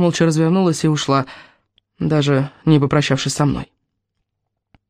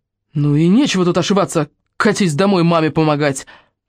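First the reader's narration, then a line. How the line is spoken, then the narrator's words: Angry shouting. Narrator (Russian): Рино заорал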